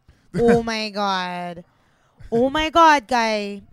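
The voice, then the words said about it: Put-on Italo-Canadian accent. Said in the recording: “Italo Canadian accent ... That's my Italo Canadian accent.”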